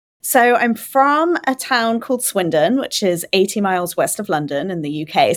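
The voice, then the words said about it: English accent from the UK. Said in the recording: “I can listen to your accent forever.”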